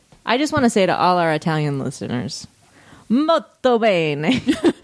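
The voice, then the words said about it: Put-on Italian accent. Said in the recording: “What do you think of ... accent? I like it a lot.”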